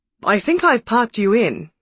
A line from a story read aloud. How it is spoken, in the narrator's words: said happily